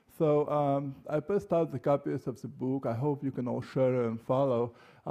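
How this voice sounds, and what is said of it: Heavy Russian accent. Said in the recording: “I speak with a very heavy Russian accent”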